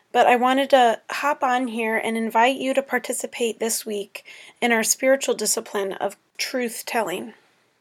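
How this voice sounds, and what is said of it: Hoarse, strained voice. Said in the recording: “Sorry about my voice, I'm still getting over some sort of bronchitis or laryngitis.”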